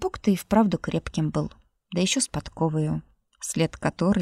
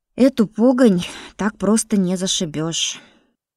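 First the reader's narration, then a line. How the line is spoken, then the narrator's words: Sighing. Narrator (Russian): вздохнула Баська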